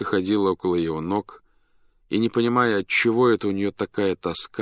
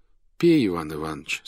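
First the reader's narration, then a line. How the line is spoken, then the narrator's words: Tender. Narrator (Russian): сказал он нежно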